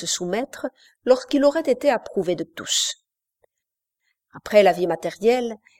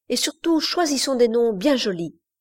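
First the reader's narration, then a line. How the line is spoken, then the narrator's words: Exclaimed. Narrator (French): s'écria Iverson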